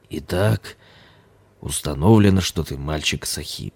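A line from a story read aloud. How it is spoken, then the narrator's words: Muffled, hollow. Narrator (Russian): продолжал лама глухо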